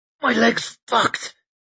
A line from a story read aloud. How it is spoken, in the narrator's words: She forced through gritted teeth